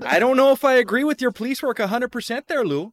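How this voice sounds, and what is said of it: Good Fargo-style Minnesota accent. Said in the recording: “my bad Fargo accent brought out your good one”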